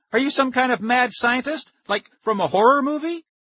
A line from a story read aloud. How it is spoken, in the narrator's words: I realized I was shouting